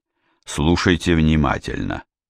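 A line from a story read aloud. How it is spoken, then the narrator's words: Cold. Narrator (Russian): холодно сказал Сварог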